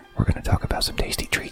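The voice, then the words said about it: Soft, mellow NPR-style radio voice. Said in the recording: “Are you trying to mimic my NPR voice?... Is this ASMR?”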